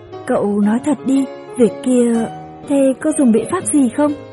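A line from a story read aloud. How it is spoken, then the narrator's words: Serious quiet voice. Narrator (Vietnamese): Nguyễn Nguyễn nghiêm mặt khẽ nói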